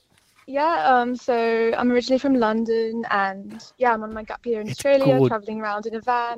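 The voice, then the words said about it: Fake British accent. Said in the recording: “a British accent ... the fake accent”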